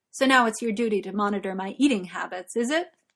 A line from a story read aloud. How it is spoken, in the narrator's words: Arthur finds himself suddenly irritated, he says, sharply